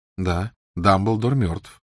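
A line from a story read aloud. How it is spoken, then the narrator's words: Calm. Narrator (Russian): спокойно откликнулся Гарри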